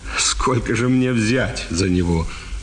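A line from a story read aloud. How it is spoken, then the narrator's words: Plain. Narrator (Russian): спросил он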